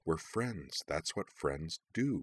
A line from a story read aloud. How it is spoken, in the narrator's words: repeated in a low mutter